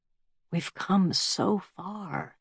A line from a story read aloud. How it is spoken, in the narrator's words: she says quietly, pleading